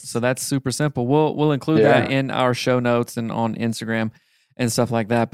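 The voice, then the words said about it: Southern American accent. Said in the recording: “I say it from a Southern accent”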